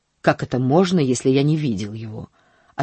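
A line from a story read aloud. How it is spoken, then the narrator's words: Irritated man. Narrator (Russian): ответил мужчина раздраженно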